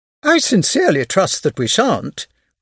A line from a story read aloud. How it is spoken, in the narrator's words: cried Madame Verdurin